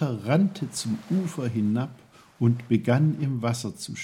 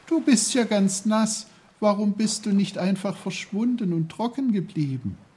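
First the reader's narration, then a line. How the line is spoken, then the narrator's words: Horrified shout. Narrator (German): rief er entsetzt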